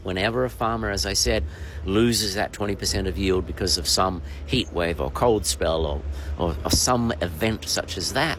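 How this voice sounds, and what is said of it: Australian accent. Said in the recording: “People will know from your accent, you're Australian”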